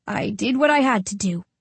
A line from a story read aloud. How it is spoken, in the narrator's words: grunt